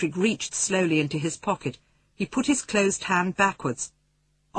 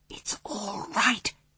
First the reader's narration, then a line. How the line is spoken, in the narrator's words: he whispered